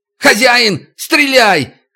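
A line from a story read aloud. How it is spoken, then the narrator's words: Shout. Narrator (Russian): крикнул Дерюшка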